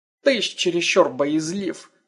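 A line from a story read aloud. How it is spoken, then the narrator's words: Old man's scoffing snort. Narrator (Russian): хмыкнул старец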